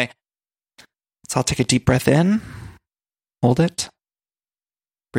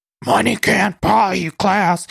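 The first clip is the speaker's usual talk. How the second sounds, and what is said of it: Gravelly, Cookie Monster-like imitated voice. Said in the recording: “My voice hurts from doing all that Luann impressioning. ... That Luann impression really hurts my throat ... It's really just the Cookie Monster.”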